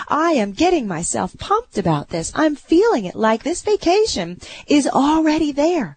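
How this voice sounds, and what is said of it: Excited, energized voice. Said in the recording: “you can feel how excited I'm getting about it. You can hear it in my voice.”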